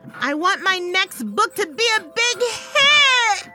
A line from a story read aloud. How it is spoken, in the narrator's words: I screamed